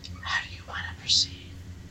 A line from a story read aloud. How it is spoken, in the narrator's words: The whisper is still a whisper, but sounds as loud as a yell in the stillness